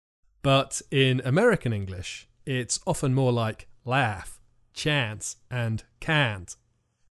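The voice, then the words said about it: Imitated American accent. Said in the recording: “Nice accent”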